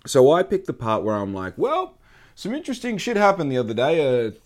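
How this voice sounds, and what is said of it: Thick Australian accent. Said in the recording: “my thick, beautiful, rich Australian accent”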